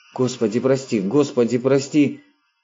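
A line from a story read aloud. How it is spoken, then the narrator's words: Quiet muttering. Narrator (Russian): Тихонько забормотали его губы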